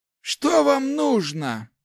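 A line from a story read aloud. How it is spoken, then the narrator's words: Old man, through teeth. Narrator (Russian): процедил сквозь зубы старик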